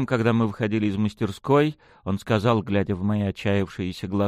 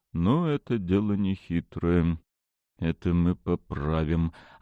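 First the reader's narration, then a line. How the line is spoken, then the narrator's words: Quiet, relieved yet dejected sigh. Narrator (Russian): облегченно и одновременно удрученно вздохнул отец, тихо проговорив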